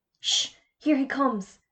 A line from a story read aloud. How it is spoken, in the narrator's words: whispered Jodie